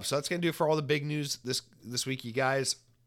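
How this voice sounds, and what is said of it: Hoarse, fading voice from a cold. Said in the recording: “this cold is getting bad and I'm losing my voice”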